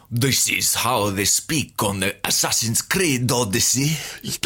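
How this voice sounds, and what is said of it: Generic put-on foreign accent. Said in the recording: “do the most generic foreign accent you can think of ... the most apt foreign accent ... Almost exactly the way they do it.”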